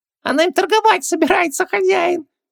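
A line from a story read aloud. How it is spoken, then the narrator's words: Squeaked. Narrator (Russian): пискнул Джин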